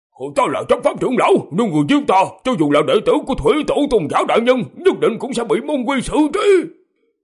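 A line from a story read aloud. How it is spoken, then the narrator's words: Loud shout, gritted teeth. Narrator (Vietnamese): Gã cắn răng một cái, hét to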